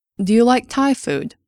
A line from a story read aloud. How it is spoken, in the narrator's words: Diana asked